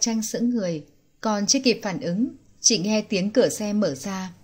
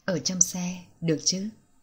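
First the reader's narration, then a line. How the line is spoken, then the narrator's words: Soft breathy whisper. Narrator (Vietnamese): nhẹ nhàng thổi hơi nóng bên tai nàng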